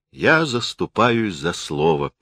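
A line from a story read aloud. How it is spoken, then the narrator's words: Soft, gentle. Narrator (Russian): мягко сказал критик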